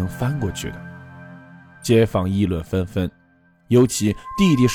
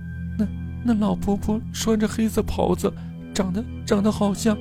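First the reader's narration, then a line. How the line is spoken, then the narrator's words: Crying hard. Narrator (Chinese): 杰哭得厉害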